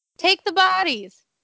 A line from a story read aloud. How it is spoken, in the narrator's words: yelled